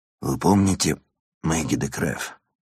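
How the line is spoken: Hoarse, strained question. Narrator (Russian): спросил Ирван севшим голосом

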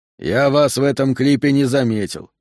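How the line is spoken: Wry snort. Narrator (Russian): хмыкнул Хэрретт

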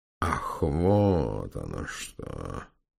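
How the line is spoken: Muttering. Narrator (Russian): пробормотал барон

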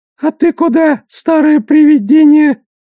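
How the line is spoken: Squeak. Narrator (Russian): Пискнул гоблин, обращаясь к Душелову

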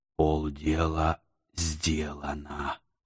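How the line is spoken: Satisfied whisper. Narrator (Russian): удовлетворенно шепнул я арабу

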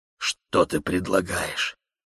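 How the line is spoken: Wheezing, trembling voice. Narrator (Russian): Хрипы, свистящее, затрудненное дыхание, голос дрожит

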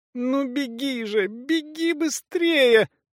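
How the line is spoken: Hysterical moan. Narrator (Russian): простонала Ли, истерически

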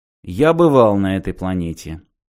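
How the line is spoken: Dry reply. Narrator (Russian): сухо ответил Мартин

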